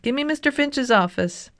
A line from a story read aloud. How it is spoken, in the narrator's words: shouted